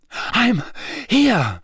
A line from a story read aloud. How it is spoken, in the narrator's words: Harry panted